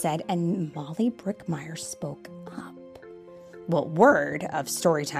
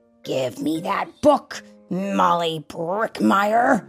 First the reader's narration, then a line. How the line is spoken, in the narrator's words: roared Miss Scales